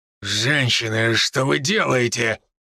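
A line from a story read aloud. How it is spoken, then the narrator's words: Growling. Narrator (Russian): прорычал я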